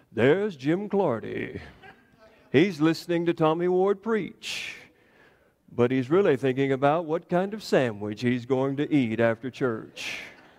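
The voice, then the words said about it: Imitating Morgan Freeman's narration voice. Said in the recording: “I don't have a good Morgan Freeman impersonation”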